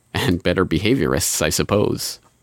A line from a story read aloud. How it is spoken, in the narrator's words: laughed and added quietly